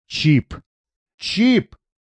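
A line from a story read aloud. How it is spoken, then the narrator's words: Angry growl. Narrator (Russian): злобно зарычал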